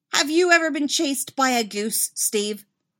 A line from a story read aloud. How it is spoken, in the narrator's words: snaps